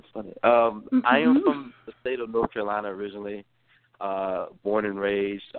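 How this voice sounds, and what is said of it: Slight regional accent. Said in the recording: “you have a slight accent”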